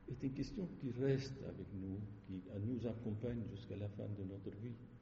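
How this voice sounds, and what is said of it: Lebanese accent in French. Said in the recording (French): “votre joli accent ... j'ai un accent, je suis Libanais”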